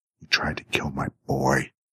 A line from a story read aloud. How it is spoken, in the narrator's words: she hissed